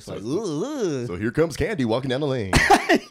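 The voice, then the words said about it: Exaggerated strip club announcer radio voice. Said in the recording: “the announcers are still doing that voice ... super, like, radio voice”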